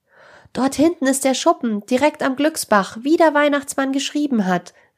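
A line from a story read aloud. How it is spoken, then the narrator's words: Joyful call. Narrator (German): rief Jonas mit freudiger Stimme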